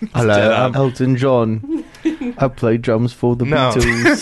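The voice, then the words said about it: British accent celebrity impression. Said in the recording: “every British accent on this show.”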